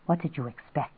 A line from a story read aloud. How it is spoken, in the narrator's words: Steve said in a low voice